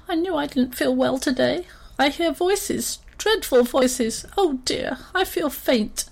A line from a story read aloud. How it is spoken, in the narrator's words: The nearest elephant gave a squeak and said